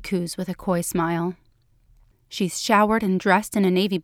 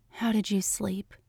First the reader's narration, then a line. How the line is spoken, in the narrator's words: she asks softly